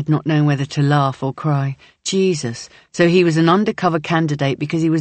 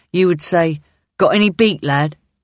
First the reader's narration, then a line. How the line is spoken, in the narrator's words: Ryan barks a laugh out